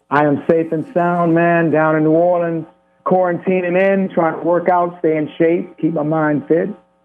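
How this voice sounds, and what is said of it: Southern American accent. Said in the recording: “that Southern accent ... The more I'm home, the more the accent comes out”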